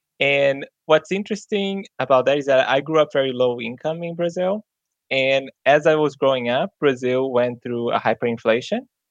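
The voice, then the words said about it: Brazilian-accented English. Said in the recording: “I'm originally from Brazil. You may hear, you know, I have a different accent.”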